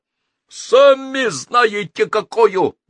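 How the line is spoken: Yelling. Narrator (Russian): заорал Бархатный Чарли

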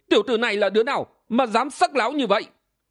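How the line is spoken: Barked question. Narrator (Vietnamese): quát hỏi

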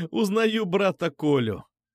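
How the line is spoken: Laughing speech. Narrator (Russian): сквозь смех сказал

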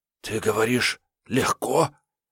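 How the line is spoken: Furious whisper, youth. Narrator (Russian): яростно зашептал отрок

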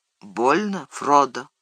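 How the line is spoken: Soft gentle question. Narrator (Russian): тихонько спросил Гэндальф

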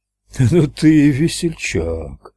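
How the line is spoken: Relieved chuckle, heavy man. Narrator (Russian): облегченно хохотнул толстяк

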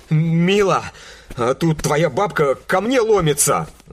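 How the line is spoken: Rude shout into phone. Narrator (Russian): заорал Афанасьев в трубку, позабыв о вежливости

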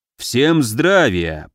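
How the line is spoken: Booming. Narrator (Russian): прогудел Муром

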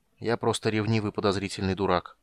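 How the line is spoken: Muttering under breath. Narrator (Russian): пробормотал Карамон себе под нос

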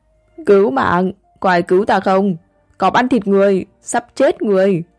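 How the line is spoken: Wailing cry. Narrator (Vietnamese): Tất Ninh Xuất gào khóc

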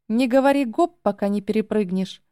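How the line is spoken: Laughing. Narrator (Russian): рассмеялся Илья

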